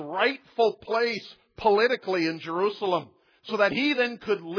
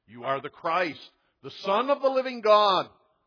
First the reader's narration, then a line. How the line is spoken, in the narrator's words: they exclaimed